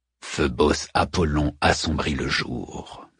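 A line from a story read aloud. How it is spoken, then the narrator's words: Murmured. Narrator (French): murmure Odysseus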